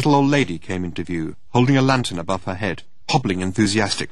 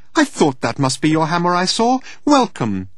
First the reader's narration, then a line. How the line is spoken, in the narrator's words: she chirped